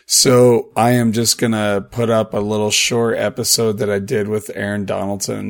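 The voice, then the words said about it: Hoarse, strained voice. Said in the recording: “As you can hear, my voice is pretty thrashed”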